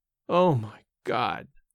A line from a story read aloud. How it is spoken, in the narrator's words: in his groaning voice